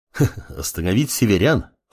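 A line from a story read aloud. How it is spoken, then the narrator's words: Clan head chuckling. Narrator (Russian): хохотнул глава клана Дух реки Рё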